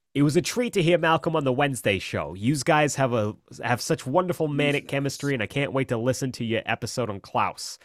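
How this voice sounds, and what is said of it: Reading in a put-on accent. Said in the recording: “I have to do the accent again.”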